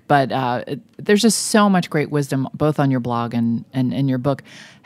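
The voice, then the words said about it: Hoarse, fading voice. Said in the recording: “I'm clearly losing my voice here”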